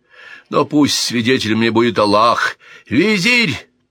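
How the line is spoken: Wild anguished scream. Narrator (Russian): так закричал, будто казненный упал не на помост, а на ложе его возлюбленной жены

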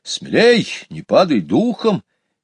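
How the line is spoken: Encouraging shout. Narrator (Russian): Петя ободряюще крикнул

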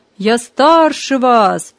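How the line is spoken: Shouting. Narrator (Russian): кричал Гарри

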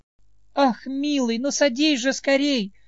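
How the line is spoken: Exclaimed. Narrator (Russian): воскликнула Мелисента

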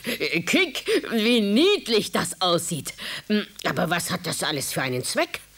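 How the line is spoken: Laughing. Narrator (German): lachte und sagte

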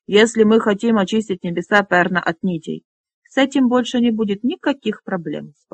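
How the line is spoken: Calm reassurance. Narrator (Russian): спокойно заверил его Флар

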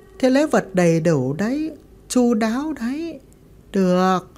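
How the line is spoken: Smiling woman. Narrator (Vietnamese): Thím mỉm cười nói

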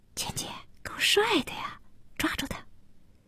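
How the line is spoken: Whisper. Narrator (Chinese): 一个小姑娘对简家悄声地说

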